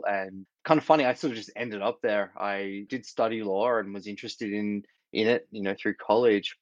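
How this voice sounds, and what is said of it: Australian accent. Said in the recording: “Grew up in Australia, as you can hear from my accent,”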